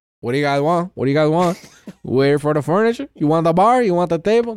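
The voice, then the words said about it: Thick Cuban accent impression. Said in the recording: “It's fucking Cuban guy ... dead ass accent, thick as hell”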